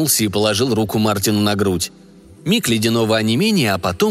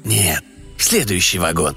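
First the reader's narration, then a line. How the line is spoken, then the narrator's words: Quiet. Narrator (Russian): тихо сказал кондуктор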